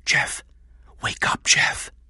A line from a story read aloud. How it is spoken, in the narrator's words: whispered